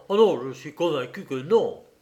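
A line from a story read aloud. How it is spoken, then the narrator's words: Policeman's lively exclamation. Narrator (French): le policier s'écria vivement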